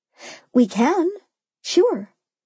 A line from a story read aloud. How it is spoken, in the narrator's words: Mimi answered, looking a little nervously at Neil